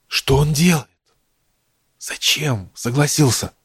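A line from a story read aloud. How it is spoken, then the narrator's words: Feverish whisper. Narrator (Russian): возле самого уха раздался горячечный шепот Авроры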